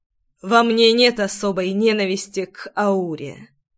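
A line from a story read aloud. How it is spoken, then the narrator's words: Serious, muffled. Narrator (Russian): вмиг став серьезным, глухо проговорил Ривеналс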